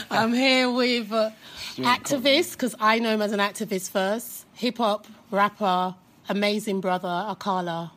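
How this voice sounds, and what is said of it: Strong English accent. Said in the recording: “my hardcore English accent”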